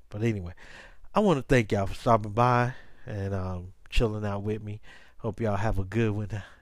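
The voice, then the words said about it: Strained, fading voice. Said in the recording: “y'all can tell, man, my voice is starting to go a little bit because allergies and stuff.”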